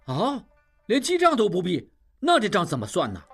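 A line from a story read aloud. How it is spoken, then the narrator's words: Crowd clamoring. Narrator (Chinese): 众人又嚷嚷起来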